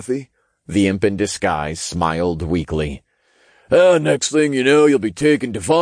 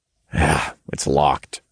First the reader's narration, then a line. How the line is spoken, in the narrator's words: I sighed